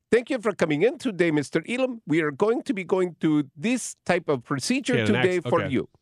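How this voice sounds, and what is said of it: Quoted doctor's line in an accent. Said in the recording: “an accent”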